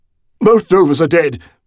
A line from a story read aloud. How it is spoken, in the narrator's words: he blurted